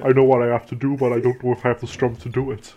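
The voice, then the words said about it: Kylo Ren impression. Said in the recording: “my Kylo Ren impression.”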